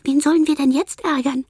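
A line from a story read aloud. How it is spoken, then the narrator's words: Voice amid babble. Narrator (German): hört Milan im Stimmgewirr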